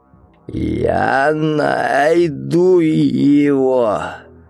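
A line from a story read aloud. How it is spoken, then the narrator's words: Hoarse shout. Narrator (Russian): хрипло крикнул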